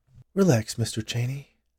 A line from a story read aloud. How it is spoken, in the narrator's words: Jillian said in a soothing voice